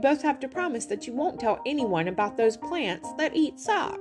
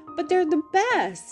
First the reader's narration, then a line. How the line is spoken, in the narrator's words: exclaimed Michael